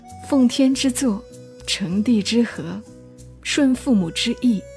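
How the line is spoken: Choked with emotion. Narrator (Chinese): 我没忍住，喉头哽咽

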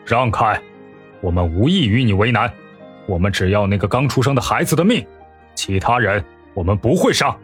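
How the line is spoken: Cold. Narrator (Chinese): 沈炼冷声说道

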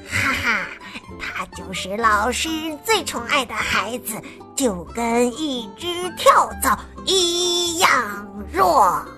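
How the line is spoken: Low singing. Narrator (Chinese): 他们低声唱着

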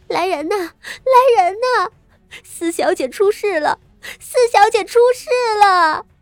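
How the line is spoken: Wailing, screaming maid. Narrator (Chinese): 丫鬟，一臂嚎哭着，一臂跑出去找老夫人，尖叫着道

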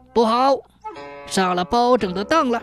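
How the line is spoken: Loud cry. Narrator (Chinese): 无常爷大叫一声

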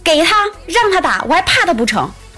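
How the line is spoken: Shouting. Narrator (Chinese): 他爸也喊说

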